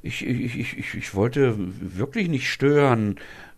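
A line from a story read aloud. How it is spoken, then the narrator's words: Stammering. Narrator (German): stottert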